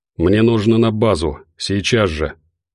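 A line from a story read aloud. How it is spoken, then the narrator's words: Hurried mutter. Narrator (Russian): пробормотал мужчина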